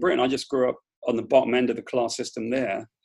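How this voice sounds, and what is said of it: British accent. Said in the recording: “somebody with a British accent ... because of my accent”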